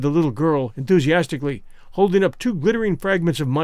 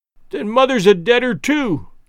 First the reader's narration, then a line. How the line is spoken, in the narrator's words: cried the little girl, sobbing bitterly